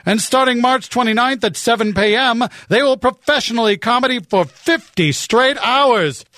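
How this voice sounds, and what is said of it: Exaggerated professional announcer voice. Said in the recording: “I'm a professional announcer voice.”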